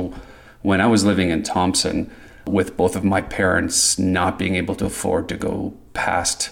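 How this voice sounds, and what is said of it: Usual voice. Nothing is said of it.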